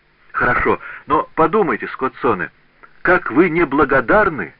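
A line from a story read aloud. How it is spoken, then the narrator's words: Exclaimed. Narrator (Russian): воскликнул Паголо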